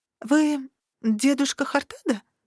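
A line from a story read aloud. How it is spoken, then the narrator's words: Uncertain question. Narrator (Russian): спросила я неуверенно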